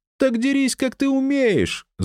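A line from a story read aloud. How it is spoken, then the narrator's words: Screaming yell. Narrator (Russian): завопила она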